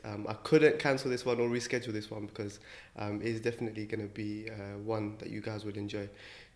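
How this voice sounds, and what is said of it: Slightly croaky, hoarse voice. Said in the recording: “I'm actually feeling a bit under the weather today ... if my voice is a little bit croaky”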